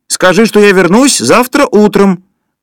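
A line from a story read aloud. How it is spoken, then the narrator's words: Distant shout. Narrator (Russian): крикнул кто-то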